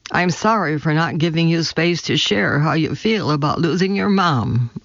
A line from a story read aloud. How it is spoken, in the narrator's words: I said